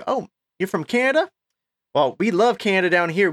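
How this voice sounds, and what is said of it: Put-on Texas accent. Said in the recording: “I'm going to do my Texas accent.”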